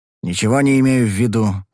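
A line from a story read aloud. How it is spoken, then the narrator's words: Grumbling. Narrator (Russian): проворчал я в ответ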